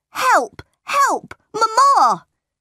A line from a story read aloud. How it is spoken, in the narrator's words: John shouted